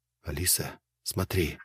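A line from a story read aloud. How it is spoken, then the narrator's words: Whisper. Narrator (Russian): Я шепнул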